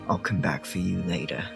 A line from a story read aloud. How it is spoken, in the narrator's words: Whitaker mutters to himself